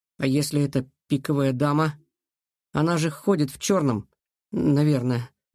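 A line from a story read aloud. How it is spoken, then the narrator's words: Uncertain. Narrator (Russian): неуверенно сказал Илья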